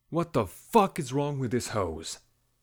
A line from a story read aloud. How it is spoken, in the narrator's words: bellowed